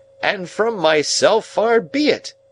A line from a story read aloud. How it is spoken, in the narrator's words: triumphantly rescued himself with the words